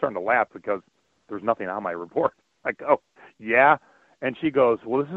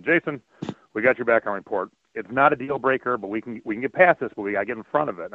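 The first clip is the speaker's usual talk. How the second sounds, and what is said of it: Deep French-Canadian accent. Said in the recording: “this is in a deep, you know, French accent.”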